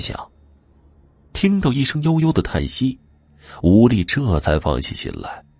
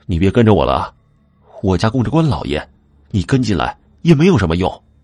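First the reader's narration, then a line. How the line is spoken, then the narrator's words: Nervous, forced loud shout. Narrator (Chinese): 他壮了壮胆子，也不回头，冲着空气大喊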